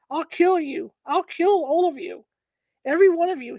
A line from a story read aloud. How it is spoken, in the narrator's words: he bellowed